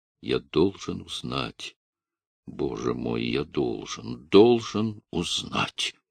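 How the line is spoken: Low, delirious repetition. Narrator (Russian): повторял вполголоса, точно в бреду

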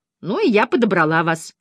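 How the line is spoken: Snapping retort. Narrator (Russian): огрызнулась она

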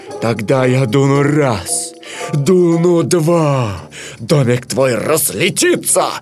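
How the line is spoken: Menacing wolf growl. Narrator (Russian): прорычал злой серый волк

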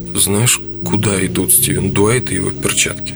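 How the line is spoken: Exaggerated sigh. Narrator (Russian): Этель нарочито вздохнула

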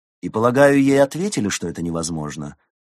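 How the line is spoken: Queen's dry question. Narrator (Russian): сухо спросила королева

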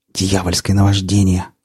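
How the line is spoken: Hoarse whispered exclamation. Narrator (Russian): хриплым шепотом воскликнул Рамир

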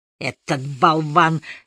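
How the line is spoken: Angry. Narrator (Russian): сердито начал доктор Фелл

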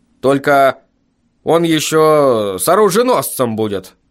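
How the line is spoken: Creature's grumble. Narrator (Russian): напоследок буркнуло существо

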